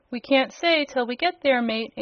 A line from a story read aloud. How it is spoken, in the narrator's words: answered the sailor in a cheerful voice